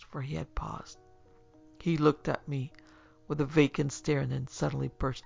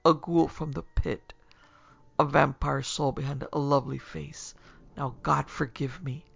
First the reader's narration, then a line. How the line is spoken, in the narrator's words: he went on in a lower tone